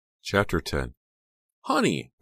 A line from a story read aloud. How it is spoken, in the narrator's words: Becca cried